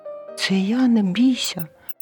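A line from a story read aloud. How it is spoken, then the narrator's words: Mouse squeak. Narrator (Ukrainian): писк рудої миші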